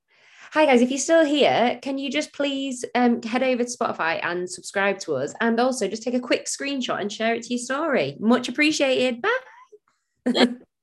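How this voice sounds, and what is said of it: Put-on podcast presenter voice. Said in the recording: “my podcast voice... Good podcast voice.”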